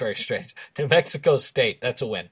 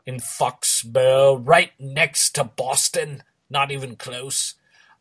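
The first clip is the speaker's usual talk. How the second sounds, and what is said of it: Put-on British accent. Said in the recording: “Why am I talking in British accent? Doesn't even make sense. ... What you just did was very strange.”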